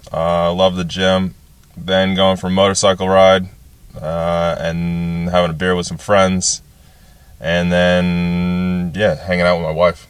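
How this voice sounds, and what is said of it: American accent with a twang. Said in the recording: “you have a bit of a twang there, and it's not from Invercargill. So you're from a place called Redding in California?”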